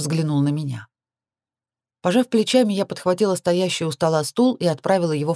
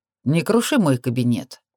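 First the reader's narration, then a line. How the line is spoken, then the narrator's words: Indifferent demand. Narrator (Russian): равнодушным тоном потребовал Оливер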